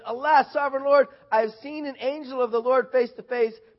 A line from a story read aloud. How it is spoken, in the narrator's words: he exclaimed